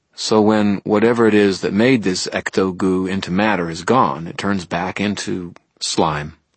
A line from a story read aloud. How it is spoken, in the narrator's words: I said